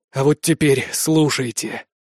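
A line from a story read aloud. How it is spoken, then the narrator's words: Wheezing, breathless, injured. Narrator (Russian): просипел тяжело дышащий Итан Мирт, лицо которого превратилось в кровавую маску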